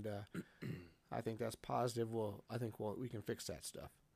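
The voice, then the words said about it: Strained, worn-out voice. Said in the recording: “my voice is barely hanging on right now.”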